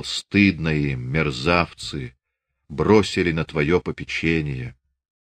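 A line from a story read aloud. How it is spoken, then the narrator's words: Whisper. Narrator (Russian): прошептал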